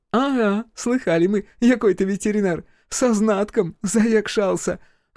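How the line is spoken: Short laugh. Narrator (Russian): хохотнула Таня

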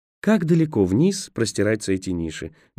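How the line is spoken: Honeyed voice. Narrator (Russian): медовым голосом спросила Роэн

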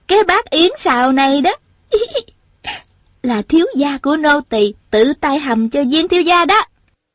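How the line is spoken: Giggling. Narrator (Vietnamese): Tiểu Cúc vừa cười khúc khích vừa nói

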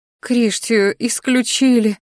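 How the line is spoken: Mother's bitter sigh. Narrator (Russian): горько вздохнула матушка

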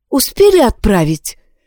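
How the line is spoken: Frightened question. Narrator (Russian): испуганно спросила Яна

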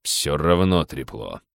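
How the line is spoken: Stubborn grumble. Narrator (Russian): упрямо проворчал начальник охраны

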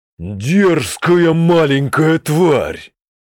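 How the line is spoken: Growl. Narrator (Russian): прорычал Оркозарок

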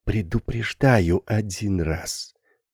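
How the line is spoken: Hissed. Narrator (Russian): прошипела Карина Стоянова

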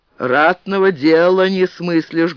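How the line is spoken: Menacing. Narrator (Russian): грозно продолжал боярин

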